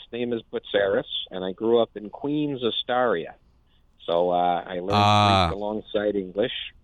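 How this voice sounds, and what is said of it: New York accent. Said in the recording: “they hear my accent ... folks wonder where the accent came from, and I say this is a New York accent”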